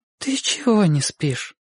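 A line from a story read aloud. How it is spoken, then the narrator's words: Surprised tender question. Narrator (Russian): удивленно и нежно спросила она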